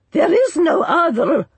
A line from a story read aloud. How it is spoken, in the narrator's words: roared Orcamo